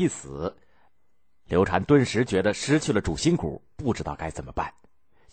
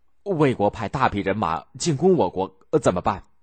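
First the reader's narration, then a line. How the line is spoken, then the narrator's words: Plain. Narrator (Chinese): 黄皓说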